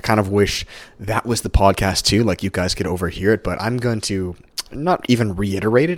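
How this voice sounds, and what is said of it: Slightly hoarse, fried voice. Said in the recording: “my voice is a little fried, it's because, like I said, my powerlifting coach, I literally spoke all on this stuff for probably about 45 minutes straight”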